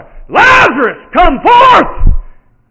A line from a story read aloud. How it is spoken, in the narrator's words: I holler